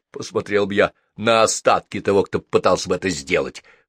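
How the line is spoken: Snorting. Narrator (Russian): хмыкнул Гордей

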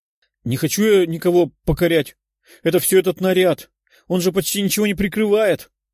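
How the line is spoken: Grumbling. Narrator (Russian): проворчала Жанна

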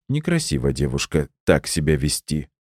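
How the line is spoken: Muttered. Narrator (Russian): пробормотал Валерий Валерьевич

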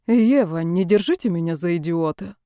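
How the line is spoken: Calm, ironic. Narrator (Russian): голос прозвучал спокойно и иронично

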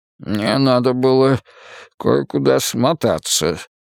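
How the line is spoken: Mumbling. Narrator (Russian): промямлил Бергдорф

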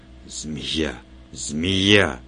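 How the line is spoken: Barely audible mutter. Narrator (Russian): Отис Джарил, пробормотавший едва слышно

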